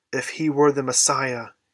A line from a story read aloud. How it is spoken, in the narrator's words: he groaned